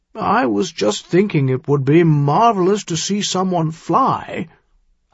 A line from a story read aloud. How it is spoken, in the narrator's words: Harald said in an undeniably wheedling tone